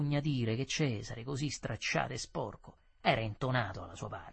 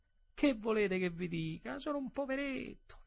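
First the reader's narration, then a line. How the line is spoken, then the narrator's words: Whimpering. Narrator (Italian): Piagnucolò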